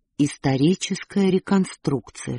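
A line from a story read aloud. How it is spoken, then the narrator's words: Whispered. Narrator (Russian): шепнул Бен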